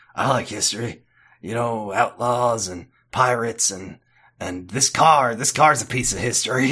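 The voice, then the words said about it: Twangy Dean voice, Sling Blade-like. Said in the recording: “The Dean voice is taking on a new twang. ... Every time I do Dean, it goes Sling Blade.”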